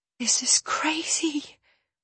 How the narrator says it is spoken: I whisper into his ear

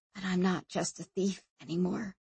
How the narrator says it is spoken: whispered Sanchia

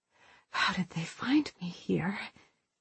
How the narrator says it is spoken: She whispered

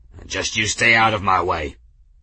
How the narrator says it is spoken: He grunted, and said

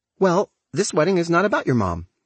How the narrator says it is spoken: snaps Dorothy

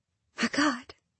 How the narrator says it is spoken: I whisper

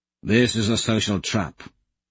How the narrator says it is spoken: Augustus mutters back

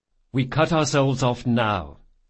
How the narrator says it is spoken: said Jean

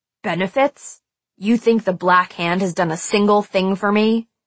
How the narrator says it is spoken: His tone was cut with anger

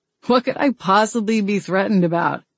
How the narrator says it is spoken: Garrett chuckled

